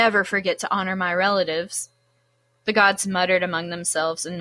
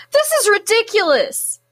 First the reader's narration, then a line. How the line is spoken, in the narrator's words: Apollo cried